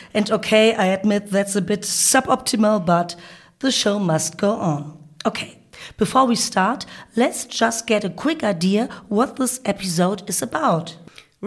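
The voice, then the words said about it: Croaky voice. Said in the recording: “please excuse my croaky voice. I have a bit of a cold”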